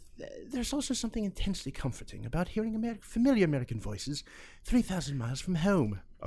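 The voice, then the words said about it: Gentle, elegant put-on British accent. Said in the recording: “read it with the British accent ... She would have had a more elegant ... that's how she would have said it, gently.”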